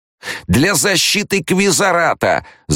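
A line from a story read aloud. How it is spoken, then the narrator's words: Yell. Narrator (Russian): завопил Корба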